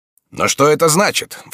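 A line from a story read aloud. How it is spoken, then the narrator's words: Sudden exclamation. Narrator (Russian): вскрикнул неожиданно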